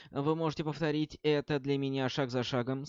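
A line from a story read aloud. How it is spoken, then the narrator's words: Plain. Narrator (Russian): спросил Роланд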